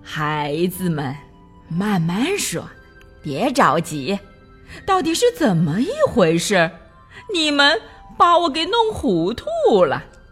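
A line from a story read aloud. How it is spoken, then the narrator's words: Cheerful old woman. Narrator (Chinese): 熊婆婆笑呵呵地说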